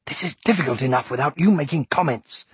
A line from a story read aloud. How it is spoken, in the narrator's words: he snapped